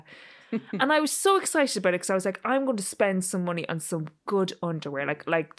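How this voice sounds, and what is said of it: Irish accent. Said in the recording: “that's not a thing you say in an Irish accent very well”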